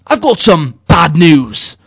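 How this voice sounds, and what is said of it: Bad News Barrett impression. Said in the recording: “my Bad News Barrett impression”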